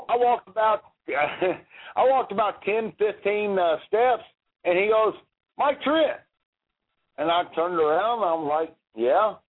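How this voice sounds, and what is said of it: Country accent. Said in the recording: “I got a country accent, obviously.”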